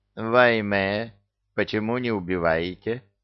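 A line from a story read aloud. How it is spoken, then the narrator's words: Plain. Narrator (Russian): спросила физиономия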